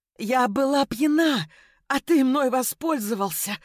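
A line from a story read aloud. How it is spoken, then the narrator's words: Whimpering through clenched teeth. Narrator (Russian): захныкала до боли, стискивая зубы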